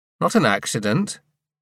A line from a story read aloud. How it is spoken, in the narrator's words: Adam said